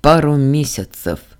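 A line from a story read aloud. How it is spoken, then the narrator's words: Sighing confession. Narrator (Russian): вздохнув, сознался Ардан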